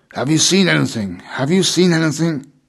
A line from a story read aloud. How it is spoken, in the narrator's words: demanded excitedly